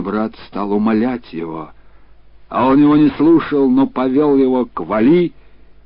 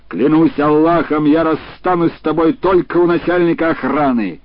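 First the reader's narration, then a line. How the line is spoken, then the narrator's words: Husband shouting. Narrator (Russian): муж женщины крикнул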